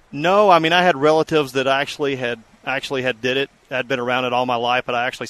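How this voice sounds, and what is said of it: Mild Mississippi Southern accent. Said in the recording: “you're not from Colorado with that accent a little bit ... originally from Mississippi”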